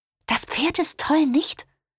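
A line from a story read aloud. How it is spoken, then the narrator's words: Whisper. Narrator (German): wisperte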